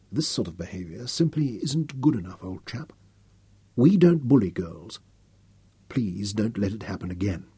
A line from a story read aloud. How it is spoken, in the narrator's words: Nicholas told him softly in English